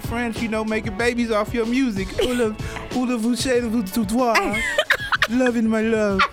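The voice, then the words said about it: Exaggerated cartoon French accent. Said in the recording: “the Pepe Le Pew like accent”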